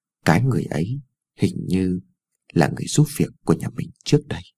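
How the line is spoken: Mumbling softly. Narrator (Vietnamese): lí nhí nói thêm

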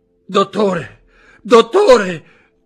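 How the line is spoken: Shouting. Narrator (Italian): gridò Barrois

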